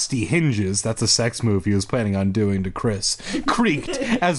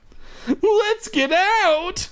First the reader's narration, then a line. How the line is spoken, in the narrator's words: I cried